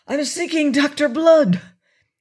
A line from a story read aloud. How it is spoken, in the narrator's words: he announced breathlessly